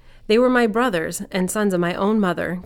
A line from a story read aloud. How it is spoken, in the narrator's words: Gideon exclaimed